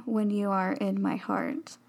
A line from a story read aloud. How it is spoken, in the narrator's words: Philippe said gently